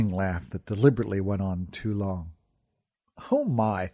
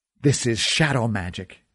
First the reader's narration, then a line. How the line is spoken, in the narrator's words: he hissed